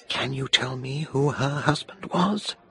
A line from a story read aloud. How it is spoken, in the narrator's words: she whispered